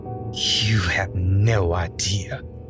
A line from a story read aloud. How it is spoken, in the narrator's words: Cindy hissed, smile still nailed to her face